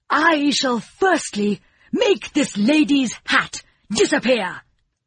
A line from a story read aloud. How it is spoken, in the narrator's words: cried the king